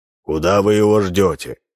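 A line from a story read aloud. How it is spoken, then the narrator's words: Menacing question. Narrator (Russian): грозно спросил Минц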